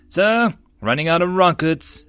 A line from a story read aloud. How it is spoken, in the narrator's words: the NCO called out